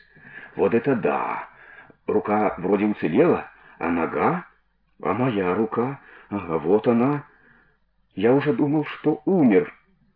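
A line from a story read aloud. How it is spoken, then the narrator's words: Cautious whispering. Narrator (Russian): с опаской перешептывались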